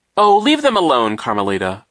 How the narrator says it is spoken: a voice cried over the chanting

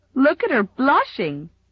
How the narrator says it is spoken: giggled Mamie Taylor

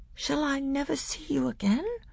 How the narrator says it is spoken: said Caspian in a quavering voice

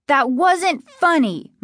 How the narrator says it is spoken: Margaret screamed

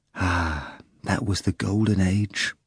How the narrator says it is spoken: the narrator whispered

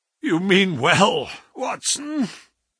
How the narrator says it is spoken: said the sick man, with something between a sob and a groan

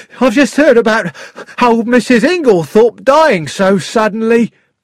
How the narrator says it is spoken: said excitedly

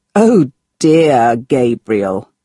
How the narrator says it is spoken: Marco laughed

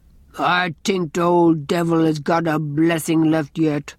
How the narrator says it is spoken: growled Andrew

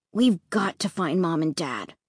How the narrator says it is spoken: Luke muttered

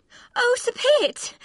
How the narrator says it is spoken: cried again

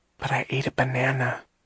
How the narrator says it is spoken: she whispered

